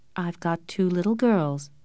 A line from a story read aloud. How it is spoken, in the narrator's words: said Mrs